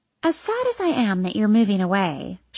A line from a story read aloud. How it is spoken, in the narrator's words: she says, her voice deceptively soft and sweet